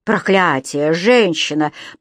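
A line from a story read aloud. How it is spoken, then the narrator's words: Growling. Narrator (Russian): прорычал Кэмерон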